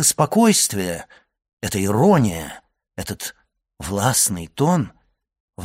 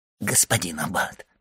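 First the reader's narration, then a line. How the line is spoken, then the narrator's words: Whisper. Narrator (Russian): прошептал Кадрус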